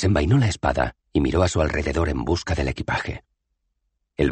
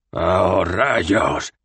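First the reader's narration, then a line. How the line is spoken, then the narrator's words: Growled. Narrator (Spanish): gruñó Cohen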